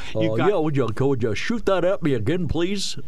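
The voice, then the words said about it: Imitates a TV character's voice. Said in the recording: “don't be slipping into your Andy Griffith impersonations here or your Gomer Pyle impersonations”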